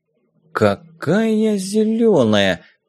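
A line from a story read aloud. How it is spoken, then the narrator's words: Muttering. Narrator (Russian): пробормотал док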